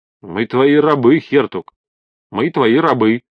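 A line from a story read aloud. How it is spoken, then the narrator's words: Crowd yelling in unison. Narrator (Russian): В один голос заорали все присутствующие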